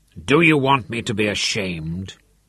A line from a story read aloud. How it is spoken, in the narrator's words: he snarled